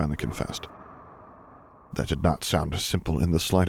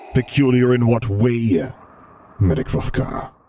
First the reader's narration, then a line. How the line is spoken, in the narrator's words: he rumbled, tone dangerously low